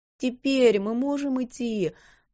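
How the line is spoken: Moaned. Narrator (Russian): простонала Дилан

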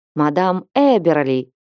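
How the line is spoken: Exclaiming. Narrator (Russian): воскликнул он

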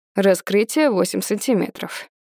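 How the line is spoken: Dry doctor's statement. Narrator (Russian): сухо говорит врач

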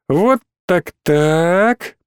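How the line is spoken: Drawled. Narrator (Russian): протянула Кира

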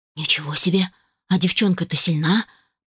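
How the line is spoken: Muttered. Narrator (Russian): пробормотал он

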